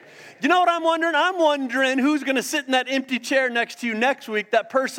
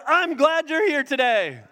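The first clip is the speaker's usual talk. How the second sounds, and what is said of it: Happy, cheerful tone. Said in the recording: “in a happy voice”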